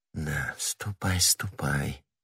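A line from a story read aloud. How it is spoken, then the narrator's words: Whisper after someone. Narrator (Russian): прошептала она вслед своему деверю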